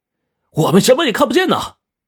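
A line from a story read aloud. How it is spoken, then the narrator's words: Glum shout. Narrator (Chinese): 我就郁闷的冲他喊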